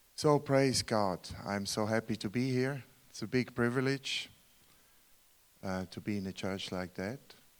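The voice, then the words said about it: Swiss German accent in English. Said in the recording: “I'm from Switzerland. You hear the accent? I can't deny that. ... So my mother language is German, Swiss German.”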